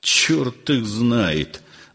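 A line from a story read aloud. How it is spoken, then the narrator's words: Muttering. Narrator (Russian): бормотал Александр Семенович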